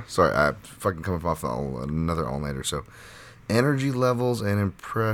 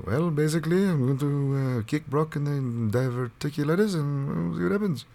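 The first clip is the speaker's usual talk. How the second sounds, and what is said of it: Alistair Overeem impression, Dutch accent. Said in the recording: “the Dutch Netherlands accent of like an Alistair Overeem”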